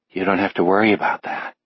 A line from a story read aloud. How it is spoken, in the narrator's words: his mind whispers